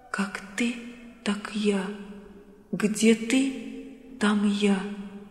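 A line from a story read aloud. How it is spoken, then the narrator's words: Whisper. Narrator (Russian): шептала Мария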